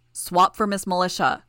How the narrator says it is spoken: Gru shouted

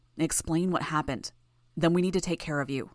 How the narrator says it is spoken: Gru murmured

